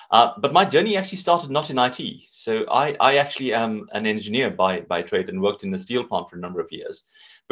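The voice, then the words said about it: South African accent. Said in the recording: “Based on this accent, you can hear I'm from South Africa”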